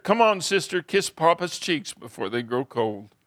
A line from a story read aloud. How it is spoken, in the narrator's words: sobbed and said to his sister